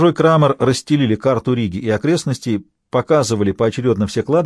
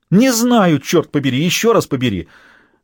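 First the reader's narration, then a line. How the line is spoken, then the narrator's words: Exclamation. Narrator (Russian): воскликнула госпожа Крамер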